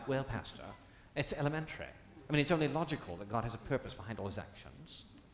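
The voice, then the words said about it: Snooty put-on British accent. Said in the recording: “in that snooty British accent”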